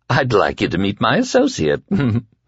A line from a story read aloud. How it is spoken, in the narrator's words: Flagg said with a giggle